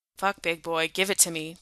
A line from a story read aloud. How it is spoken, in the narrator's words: Jensen grunted